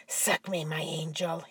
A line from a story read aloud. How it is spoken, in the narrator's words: he murmured